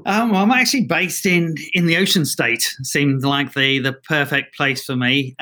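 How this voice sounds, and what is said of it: London accent with Australian twang. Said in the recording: “I hear an accent ... I've got a bit of a funny accent. Uh, originally from London, and then went to Australia for about 15 years, where I've kind of picked up this twang at the end of my sentences”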